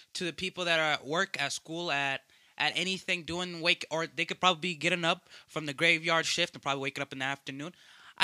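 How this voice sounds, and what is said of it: Put-on Swahili-style accent. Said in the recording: “I could start the whole Swahiluan accent, the good morning thing... Galaptuan accent”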